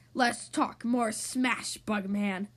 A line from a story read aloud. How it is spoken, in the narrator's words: Hulk growled